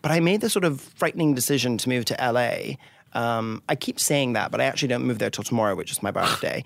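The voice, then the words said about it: Refined British accent. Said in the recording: “this fabulous accent ... I'm originally from Scotland ... I somewhat have a Joan Collins accent”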